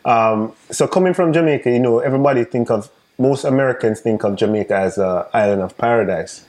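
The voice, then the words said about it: Jamaican accent. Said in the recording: “I'm Jamaican, if you guys don't realize mm-hmm. by the accent”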